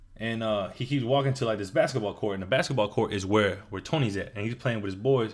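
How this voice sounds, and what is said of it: Usual voice. Nothing is said of it.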